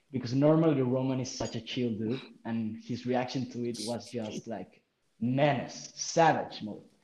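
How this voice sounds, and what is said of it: Speaks with a distinctive accent. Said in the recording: “your accent's amazing”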